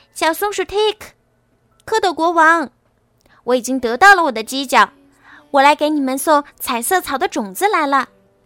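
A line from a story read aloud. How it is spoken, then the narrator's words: Calling out. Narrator (Chinese): 小独角兽……他喊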